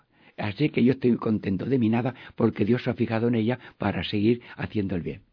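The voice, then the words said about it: Noticeable regional Spanish accent. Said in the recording (Spanish): “ese acento que tiene”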